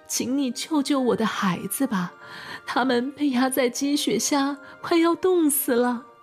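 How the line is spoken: Mother crying. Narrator (Chinese): 山花妈妈哭着说

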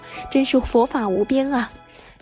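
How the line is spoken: Admiring exclamation. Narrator (Chinese): 在场的居士感叹道

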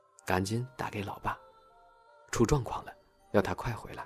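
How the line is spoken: Quiet instruction. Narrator (Chinese): 大叔小声的指示妈妈

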